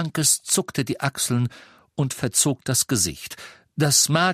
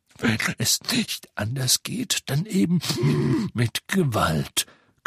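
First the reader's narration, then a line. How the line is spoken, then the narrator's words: Growl. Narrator (German): knurrte Moody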